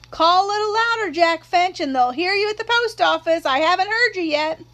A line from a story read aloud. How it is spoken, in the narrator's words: Miss Maudie would yell back